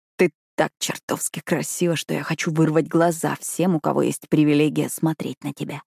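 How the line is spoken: Predatory hoarse rasp. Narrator (Russian): хрипит, хищно облизывая губы

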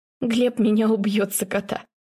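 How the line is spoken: Laughing through tears. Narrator (Russian): Сквозь слезы смеется

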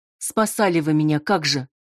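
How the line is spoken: Snapped retort. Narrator (Russian): огрызнулась Ирина

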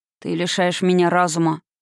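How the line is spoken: Low grumble in ear. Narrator (Russian): проворчал он мне на ухо

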